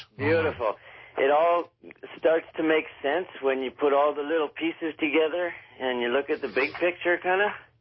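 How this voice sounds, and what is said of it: Out of breath. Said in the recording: “I just ran up the stairs, so I'm a little bit out of breath.”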